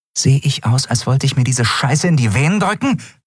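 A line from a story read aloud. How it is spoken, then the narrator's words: Hissing woman. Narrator (German): fauchte sie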